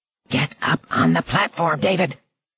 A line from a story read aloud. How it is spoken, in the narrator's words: Hilly whispered grimly